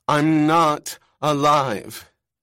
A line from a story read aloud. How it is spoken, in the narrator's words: said loudly